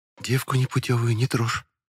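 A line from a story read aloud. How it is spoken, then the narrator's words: Very quiet. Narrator (Russian): очень тихо произнесла Метельская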